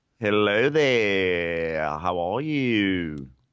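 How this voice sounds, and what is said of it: Weird put-on accent greeting. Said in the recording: “Monday gets a special accent for me, which is what that weird hello was”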